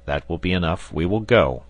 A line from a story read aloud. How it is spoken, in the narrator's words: answered Harding in a firm voice